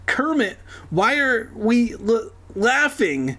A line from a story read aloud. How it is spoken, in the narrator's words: He stammered